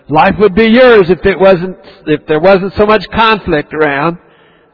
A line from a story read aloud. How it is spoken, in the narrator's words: Our souls scream